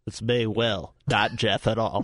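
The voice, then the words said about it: Imitates another person's voice. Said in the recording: “your Will impression?... This is my very accurate impression.”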